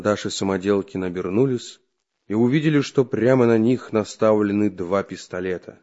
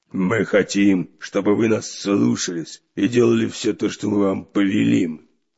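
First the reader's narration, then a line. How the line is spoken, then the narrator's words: Barked. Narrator (Russian): рявкнул рыжебородый капитан Буль-Буль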